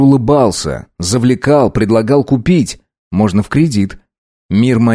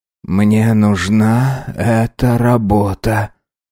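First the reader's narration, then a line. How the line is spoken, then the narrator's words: Quiet. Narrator (Russian): тихо сказал мужчина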